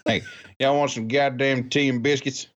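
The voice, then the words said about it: Redneck British accent. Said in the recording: “I'm thinking of like a redneck British accent”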